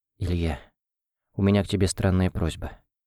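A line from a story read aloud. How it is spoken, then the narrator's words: Quiet, nervous. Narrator (Russian): тихо сказала она, волнуясь еще больше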